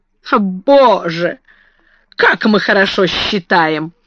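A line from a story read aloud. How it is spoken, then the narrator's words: Exclaimed. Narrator (Russian): воскликнула Лавиния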